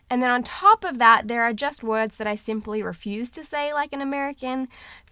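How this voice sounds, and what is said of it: Mixed Australian and American accent. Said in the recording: “my accent ... I am Australian by birth, but have lived in the USA for the past 8-ish years ... my voice is a hot, messy mix between the two of them”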